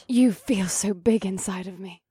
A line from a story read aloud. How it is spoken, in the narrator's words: Eva whispered